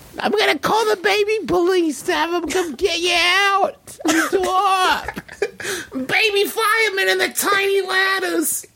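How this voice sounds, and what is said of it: Childlike baby voice. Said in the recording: “I sound like a baby”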